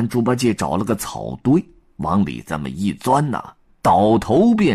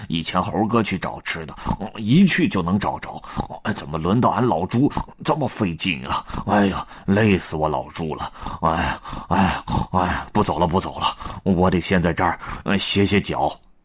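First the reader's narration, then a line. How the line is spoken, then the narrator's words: Panting, inner thought. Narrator (Chinese): 累得个猪八戒呼呼直喘，心想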